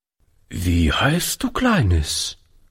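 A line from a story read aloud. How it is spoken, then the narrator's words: Hesitant question. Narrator (German): fragte Oliver zögernd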